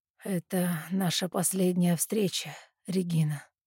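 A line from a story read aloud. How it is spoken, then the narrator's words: Muffled, hollow voice. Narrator (Russian): говорит отец глухим голосом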